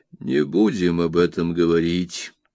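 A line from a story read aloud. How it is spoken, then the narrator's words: Sighing. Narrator (Russian): вздохнул он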